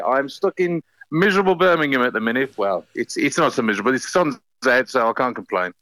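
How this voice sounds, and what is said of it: Birmingham (Brummie) English accent. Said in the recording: “Your accent sounds like you're a Brummie”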